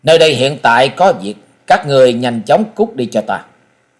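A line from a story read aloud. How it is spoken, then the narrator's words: Cold, impatient. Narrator (Vietnamese): Mỹ thiếu niên sớm đã hết kiên nhẫn, lạnh lùng nói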